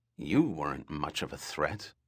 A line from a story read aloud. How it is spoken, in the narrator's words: Doria muttered